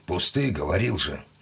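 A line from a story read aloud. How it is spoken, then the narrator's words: Grumble. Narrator (Russian): буркнул тот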